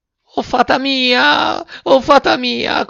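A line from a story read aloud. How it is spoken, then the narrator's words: Puppet shrieking. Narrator (Italian): cominciò a strillare il burattino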